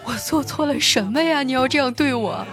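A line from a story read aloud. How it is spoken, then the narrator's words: Tearful, crying voice. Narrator (Chinese): 忍不住眼泪决堤了，带着哭腔问他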